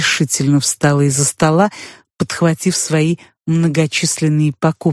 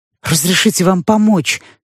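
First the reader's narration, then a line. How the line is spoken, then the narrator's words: Pleading. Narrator (Russian): взмолился крысообразный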